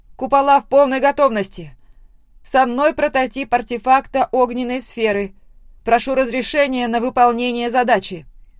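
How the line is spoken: Loud confident report. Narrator (Russian): Громко и уверенно доложила я

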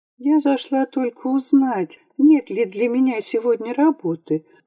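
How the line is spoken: Melodic, slightly trembling, girl. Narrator (Russian): проговорила девушка мелодичным голосом, который слегка задрожал

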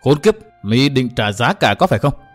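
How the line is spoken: Angry. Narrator (Vietnamese): Từ Mã Minh tức giận nói

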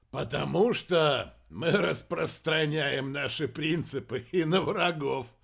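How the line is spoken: Laughing. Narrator (Russian): рассмеялся Чуд

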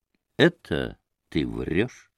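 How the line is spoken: Firm, calm, clipped man. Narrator (Russian): вдруг твердо и спокойно отчеканил мужик

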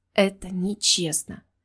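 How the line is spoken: Gentle whisper, not accusing. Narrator (Russian): не обвиняя, прошептала я

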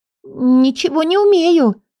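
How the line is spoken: Mousy squeak. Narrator (Russian): пропищала мышью

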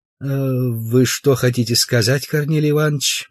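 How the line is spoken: Gentle question. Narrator (Russian): мягко спросил

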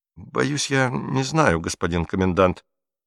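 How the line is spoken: Mumbled. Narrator (Russian): промямлил Котлер

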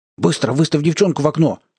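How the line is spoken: Sharp command. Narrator (Russian): скомандовал кому-то Кокис и закричал наружу

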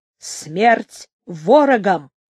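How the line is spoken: Menacing. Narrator (Russian): грозно сказал Андрей Валько

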